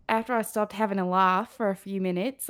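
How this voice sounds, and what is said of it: Put-on Australian accent. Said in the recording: “Can you do the Australia? ... Australian accent.”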